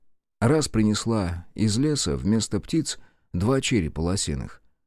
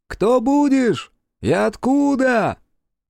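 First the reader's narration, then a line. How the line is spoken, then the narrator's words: Distant shout. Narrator (Russian): крикнули из-за кордона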